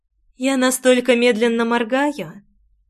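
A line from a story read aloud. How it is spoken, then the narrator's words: Tenderest, unfamiliar voice. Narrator (Russian): ответила не своим, а самым нежнейшим голосом из всех, которые когда-либо слышала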